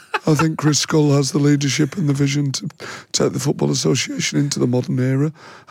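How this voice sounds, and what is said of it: Imitates another person's voice. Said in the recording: “great Graham Kelly impression”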